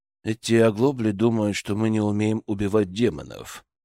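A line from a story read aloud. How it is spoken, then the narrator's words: Monotone explanation. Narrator (Russian): монотонным голосом пояснил бояр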